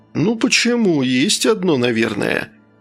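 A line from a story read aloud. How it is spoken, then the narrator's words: Uncertain. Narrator (Russian): неуверенно произнес Рик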